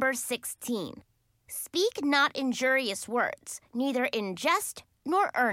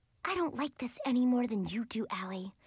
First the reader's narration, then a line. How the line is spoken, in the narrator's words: Mary Kay whispered